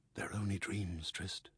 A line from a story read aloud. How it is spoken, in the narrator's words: whispered